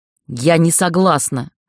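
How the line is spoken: Hateful hiss. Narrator (Russian): с ненавистью прошипела я

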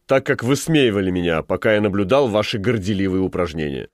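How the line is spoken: Stern remark. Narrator (Russian): строго заметил Тортон

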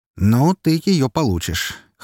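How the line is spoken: Wry snort. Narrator (Russian): хмыкнул я

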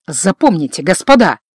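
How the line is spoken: Quiet, memorable. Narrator (Russian): говорил тихо, а каждое слово запоминалось

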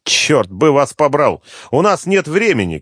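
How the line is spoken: Shouted. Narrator (Russian): крикнул он

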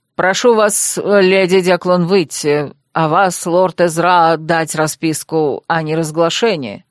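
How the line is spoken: Grim demand. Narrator (Russian): мрачно потребовал Освальд

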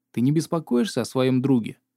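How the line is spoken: Question. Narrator (Russian): красотка спросила

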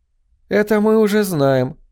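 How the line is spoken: Snide. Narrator (Russian): сказала Францесс Флауэрс, ехидно улыбнувшись

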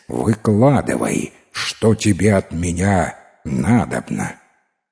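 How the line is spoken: Plain. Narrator (Russian): Тянь-Тай говорит

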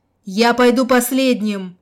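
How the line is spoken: Strained shout. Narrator (Russian): явно через силу прокричал он

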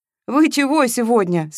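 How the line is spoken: Laughing. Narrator (Russian): смеялась Маша

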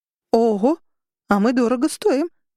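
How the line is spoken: Exclaiming. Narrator (Russian): воскликнула Арабелла

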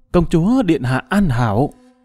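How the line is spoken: Trembling frightened guard. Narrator (Vietnamese): Thần sắc của thương vệ binh đại biến, run rẩy nói

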